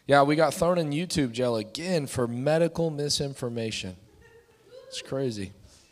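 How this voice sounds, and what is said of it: Hoarse voice. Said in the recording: “my voice sounds a little hoarse.”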